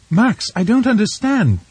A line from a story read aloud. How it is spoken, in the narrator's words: she cried